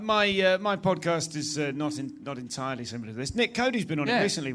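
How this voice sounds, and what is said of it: Posh British accent. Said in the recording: “sounds great with a British accent. ... You sound like the Queen.”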